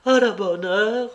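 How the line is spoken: Exclaiming. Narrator (French): s'écria-t-elle

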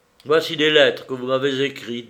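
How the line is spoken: Plain. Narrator (French): dit-il

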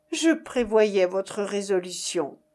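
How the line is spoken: Plain. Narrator (French): dit Ariane

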